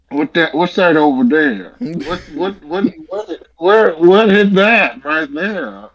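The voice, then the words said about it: Put-on Southern or Maine accent. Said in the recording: “What accent are you doing? Is it Southern? ... in that movie it's trying to be a, a Maine accent”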